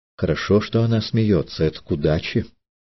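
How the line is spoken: Elder whispering. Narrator (Russian): Старший шептал

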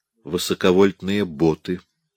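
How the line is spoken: Quiet teacher's explanation. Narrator (Russian): тихо пояснил преподаватель

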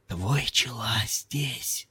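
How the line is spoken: Whisper. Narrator (Russian): послушник прошептал

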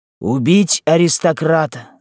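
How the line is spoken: Several voices shouting. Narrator (Russian): закричало несколько голосов из черни

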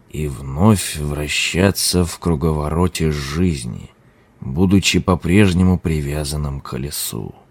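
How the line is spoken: Muttering. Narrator (Russian): пробормотал лама

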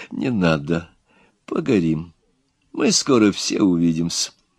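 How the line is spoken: Gentle. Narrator (Russian): губошлеп мягко сказал

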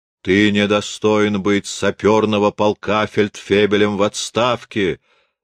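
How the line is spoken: Booming exclamation. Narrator (Russian): восклицаю я гулким голосом

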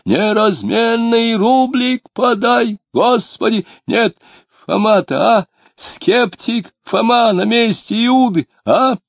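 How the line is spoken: Nasal old man's singsong. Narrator (Russian): он пропел гнусавым голосом старенького дичка

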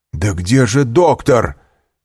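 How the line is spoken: Shouting. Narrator (Russian): кричал Вильфор

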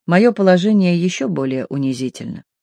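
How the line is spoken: Quiet speech. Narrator (Russian): она тихо проговорила

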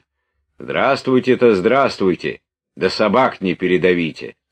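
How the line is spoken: Stern. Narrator (Russian): строго сказал дядюшка

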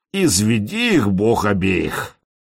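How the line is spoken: Gloomy. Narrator (Russian): добавил мрачно

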